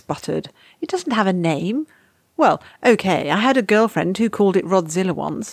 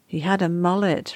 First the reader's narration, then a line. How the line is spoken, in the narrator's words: Rodney said sadly